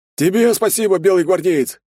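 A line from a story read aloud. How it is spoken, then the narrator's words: Shout from crowd. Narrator (Russian): крикнул кто-то из толпы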